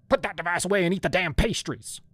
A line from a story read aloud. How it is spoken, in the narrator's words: she barked